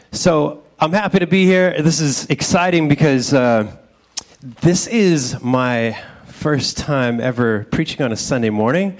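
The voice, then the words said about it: Nervous-sounding voice. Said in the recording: “I'm not nearly as nervous as my voice sounds.”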